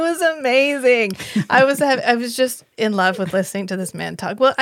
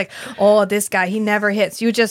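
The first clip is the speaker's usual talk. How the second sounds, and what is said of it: Imitated Canadian accent. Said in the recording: “is that an accurate depiction the imp- of the accent? The impression... I think she's got it down... That's what he sounded like... Guys with like the same accent. It was like the Great White North Baseball Edition.”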